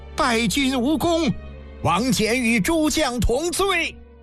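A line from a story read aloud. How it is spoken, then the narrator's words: Loud shout. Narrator (Chinese): 突闻醉将席一声高喊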